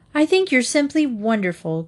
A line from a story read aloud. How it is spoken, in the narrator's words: cried Doris